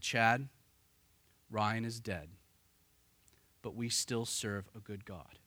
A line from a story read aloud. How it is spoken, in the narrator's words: his father, ever so gently, said